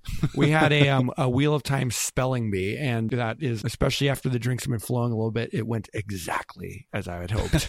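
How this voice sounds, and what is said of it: Hoarse, strained voice. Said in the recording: “My voice is totally gone from talking ... you were yelling over a crowd for a bit there”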